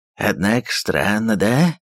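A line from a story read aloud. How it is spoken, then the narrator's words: Grumbling man. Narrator (Russian): пробурчал казак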